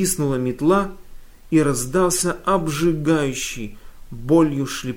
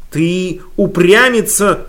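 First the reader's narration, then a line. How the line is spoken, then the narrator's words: Shouting. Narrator (Russian): закричала она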